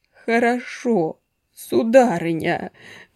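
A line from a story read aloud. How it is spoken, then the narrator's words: Groaning. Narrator (Russian): простонал Кистунов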